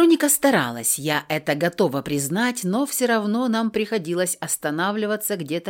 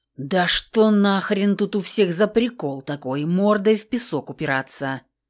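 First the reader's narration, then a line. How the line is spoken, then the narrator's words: Growling. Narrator (Russian): Зарычала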